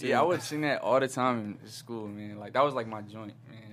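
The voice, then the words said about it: Slight East Coast American accent. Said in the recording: “you lightweight, low-key have a little bit of an East Coast accent”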